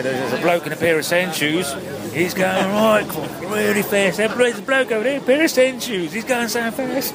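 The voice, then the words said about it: Australian accent imitating Shane Sutton. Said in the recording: “his Australian accent there ... the Australian accent came in when he talked about when he and Shane Sutton first spotted Chris Froome ... and Shane said, there's a bloke riding in”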